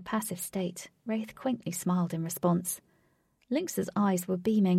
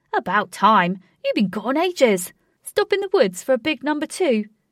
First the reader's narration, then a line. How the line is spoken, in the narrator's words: shouted